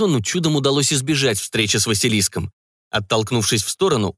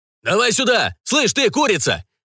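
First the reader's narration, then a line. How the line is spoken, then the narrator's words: Thundering shout. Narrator (Russian): Прогремел Ник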